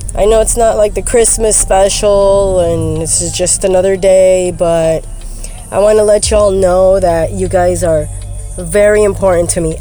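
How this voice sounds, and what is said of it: Sick-sounding voice. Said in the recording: “Excuse my voice. I'm sick.”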